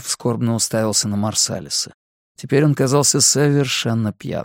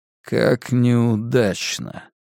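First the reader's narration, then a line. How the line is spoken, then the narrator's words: Dull, muffled voice. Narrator (Russian): глухо произнес черный человек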